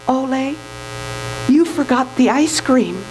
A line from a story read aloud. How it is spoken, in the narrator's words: Softly, she whispered